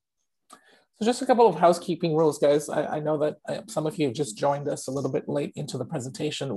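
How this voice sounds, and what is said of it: Voice sounds a bit off. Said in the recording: “my voice is still recovering from a throat infection, so I do sound a bit off today”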